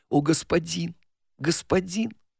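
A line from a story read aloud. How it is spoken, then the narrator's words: Whisper. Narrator (Russian): Голос этот шептал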